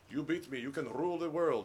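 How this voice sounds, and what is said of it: John Malkovich Russian accent impression. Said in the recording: “John Malkovich that plays the Russian mobster ... He has a Russian accent.”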